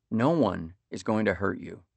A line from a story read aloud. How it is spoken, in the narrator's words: Dad said